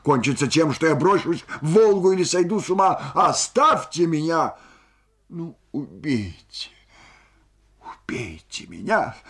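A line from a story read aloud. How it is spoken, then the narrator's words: Shouting. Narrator (Russian): крикнула Ольга Ивановна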